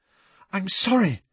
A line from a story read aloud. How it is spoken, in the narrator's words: Hermione gasped